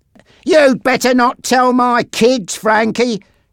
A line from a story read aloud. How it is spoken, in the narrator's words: shouted Bob